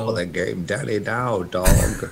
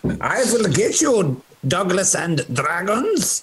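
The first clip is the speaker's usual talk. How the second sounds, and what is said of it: Put-on German accent. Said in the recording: “German? Do an accent.”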